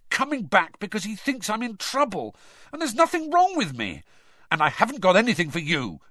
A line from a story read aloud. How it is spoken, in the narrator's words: Harry snapped at Hedwig